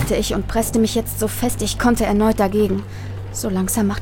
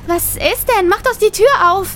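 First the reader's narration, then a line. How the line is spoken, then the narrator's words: High-pitched female voice. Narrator (German): sagte meine Cousine mit hoher Stimme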